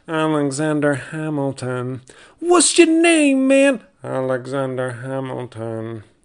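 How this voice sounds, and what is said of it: Imitates a song from a musical. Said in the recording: “my impression of Hamilton”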